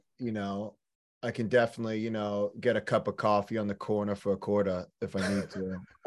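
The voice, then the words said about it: Put-on New York accent. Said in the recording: “I don't hear the New York accent at all ... there it is”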